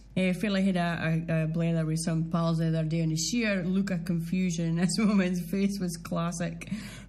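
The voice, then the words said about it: Doric Scottish accent. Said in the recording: “proud or Doric accent”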